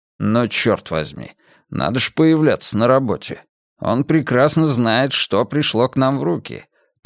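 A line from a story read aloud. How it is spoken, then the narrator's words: Grumbled. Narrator (Russian): проворчал Мунк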